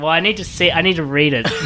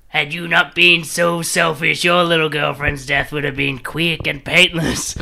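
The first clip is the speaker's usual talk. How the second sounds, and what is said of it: Green Goblin impression. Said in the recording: “Green Goblin. ... impersonation ... Bad at impersonations, though. ... Pretty good.”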